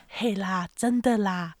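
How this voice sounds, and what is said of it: Quiet imitation of shop owner. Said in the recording (Chinese): “小声，我要模拟老板”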